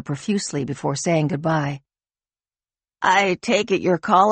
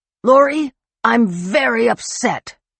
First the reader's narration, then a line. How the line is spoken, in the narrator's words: he bellowed